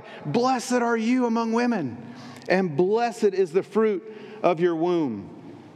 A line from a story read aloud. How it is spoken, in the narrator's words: she exclaims with a loud cry